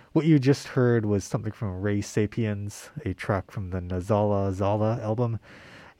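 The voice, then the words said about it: Muffled voice, speaking through mask. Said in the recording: “my voice might be a little muffled because of the mask that I'm wearing”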